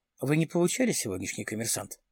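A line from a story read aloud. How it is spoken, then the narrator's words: Plain. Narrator (Russian): спросил Дронго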